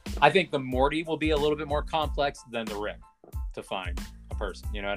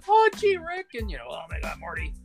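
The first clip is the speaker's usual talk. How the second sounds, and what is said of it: Morty and Rick voice impressions. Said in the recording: “does that voice impersonation ... it all sounds the same, it all sounds bad ... do Justin Roiland's voice”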